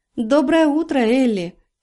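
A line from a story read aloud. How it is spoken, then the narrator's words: Silvery voice. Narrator (Russian): серебристым голоском сказала она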